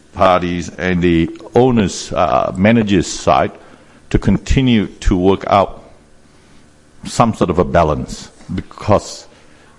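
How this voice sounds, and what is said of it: Unusual accent. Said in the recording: “my accent is a little bit unusual”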